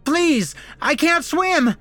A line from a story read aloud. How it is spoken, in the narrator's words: the accountant kept screaming